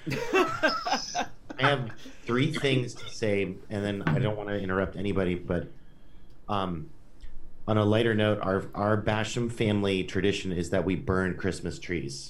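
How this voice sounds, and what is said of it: Hoarse, strained voice. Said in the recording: “lost my voice”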